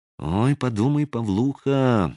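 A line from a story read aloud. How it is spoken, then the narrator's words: Whispering inner voice. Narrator (Russian): нашептывал внутренний голос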